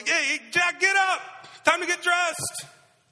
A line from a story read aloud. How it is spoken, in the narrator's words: Dad shouts upstairs